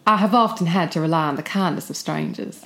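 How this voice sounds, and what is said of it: Put-on American Southern accent. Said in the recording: “do your best Southern ... you're so Charleston Gone with the Wind ... that's so good”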